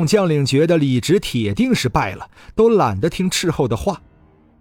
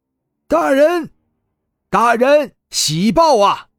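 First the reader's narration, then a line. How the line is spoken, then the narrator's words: Scout shouting loudly. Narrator (Chinese): 那个斥候大声喊道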